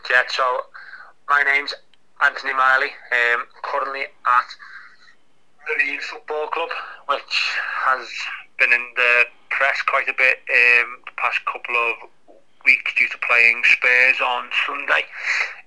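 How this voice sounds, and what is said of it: Liverpool accent. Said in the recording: “I'm from Liverpool ... the accent's a bit of a giveaway”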